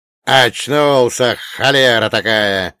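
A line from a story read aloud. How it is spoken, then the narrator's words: Old man's joyful yell. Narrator (Russian): радостно завопил дед Маркей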